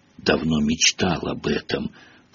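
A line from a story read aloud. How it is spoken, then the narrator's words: Whisper in the ear. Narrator (Russian): прошептал Рон в ухо Гарри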